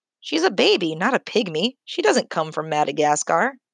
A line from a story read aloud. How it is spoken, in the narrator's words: the attendant said